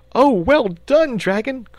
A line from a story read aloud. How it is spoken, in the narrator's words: cried the boy, excitedly